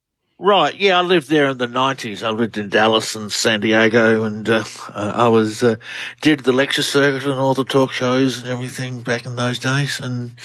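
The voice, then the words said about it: Australian accent. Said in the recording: “Australian researcher. Love the accent. ... You all have the accent, and we love it.”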